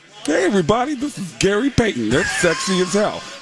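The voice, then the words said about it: Imitates another person's voice. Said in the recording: “that's my Tracy Morgan impression.”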